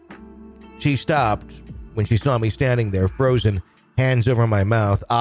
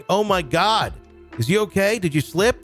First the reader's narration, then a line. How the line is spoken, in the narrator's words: My new coworker came running to the back shouting